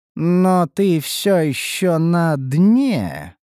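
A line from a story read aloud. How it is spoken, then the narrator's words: Drawling, insinuating. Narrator (Russian): протянул я с намёком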